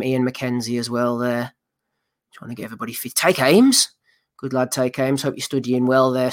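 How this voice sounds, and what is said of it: Hoarse, strained voice giving out. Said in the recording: “My voice is giving out. ... The throat's starting to give way”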